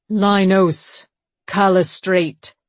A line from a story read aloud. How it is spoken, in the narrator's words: he said, his booming voice carrying across the square